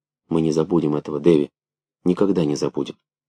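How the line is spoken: Soundless mouthed whisper. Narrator (Russian): одними губами шепнула

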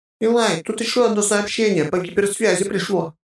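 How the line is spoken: Frightened report. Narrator (Russian): как-то испуганно доложила Маша

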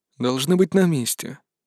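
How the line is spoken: Calm reply. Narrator (Russian): спокойно ответил отец Нор

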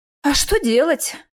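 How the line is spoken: Sighing reply. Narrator (Russian): вздохнул в ответ я

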